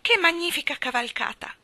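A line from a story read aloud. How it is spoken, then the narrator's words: Exclaimed. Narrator (Italian): esclamò Michael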